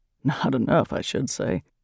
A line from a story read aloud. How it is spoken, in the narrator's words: added in a lower voice